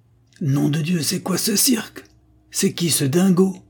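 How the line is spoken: Exclaimed. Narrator (French): s'écria M

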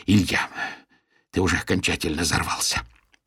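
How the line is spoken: Hoarse voice. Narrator (Russian): проговорил он севшим голосом

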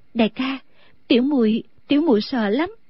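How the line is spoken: Trembling voice. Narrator (Vietnamese): A Tú run run nói

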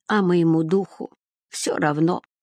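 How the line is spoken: Child's grumble. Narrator (Russian): проворчал малыш

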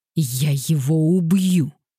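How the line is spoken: Growled. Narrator (Russian): прорычал Мэтью

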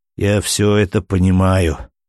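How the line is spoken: Sighing. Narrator (Russian): вздохнул арестованный

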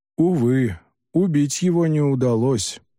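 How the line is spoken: Sigh. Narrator (Russian): вздохнул Дудзиян

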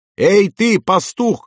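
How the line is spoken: Shouting. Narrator (Russian): кричал

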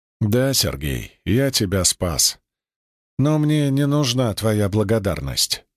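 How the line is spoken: Calm. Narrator (Russian): спокойно ответил Кирилл

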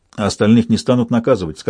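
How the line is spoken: Plain. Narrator (Russian): сказал я

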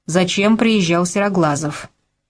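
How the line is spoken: Stern question. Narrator (Russian): строго спросил

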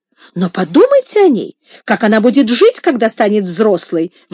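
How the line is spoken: Exclamation. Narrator (Russian): воскликнула Мария

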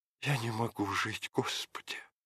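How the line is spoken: Desperate whisper. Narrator (Russian): шептала Мария

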